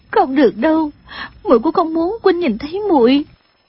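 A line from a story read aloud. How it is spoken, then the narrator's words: Crying. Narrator (Vietnamese): khóc lóc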